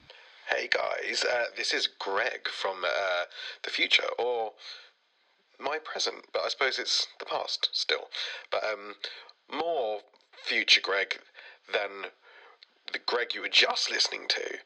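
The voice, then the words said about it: Sick, hoarse chesty voice. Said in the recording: “as you can probably tell from my voice, ... I got very, very sick, and I've got a chest infection.”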